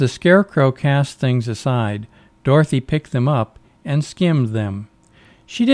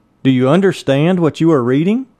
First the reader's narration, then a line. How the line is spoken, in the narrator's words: He called out to them